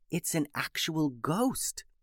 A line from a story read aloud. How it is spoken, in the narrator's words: whispered Alice